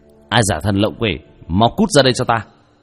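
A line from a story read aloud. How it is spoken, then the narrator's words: Stern shout after deep breath. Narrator (Vietnamese): Vương Quân Diệt hít sâu một hơi, nghiêm nghị quát lên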